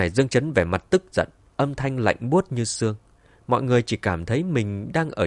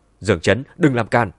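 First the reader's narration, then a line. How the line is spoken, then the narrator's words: Angry loud shout. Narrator (Vietnamese): Diệp Mạn tức giận hướng về phía Dương Chấn quát lớn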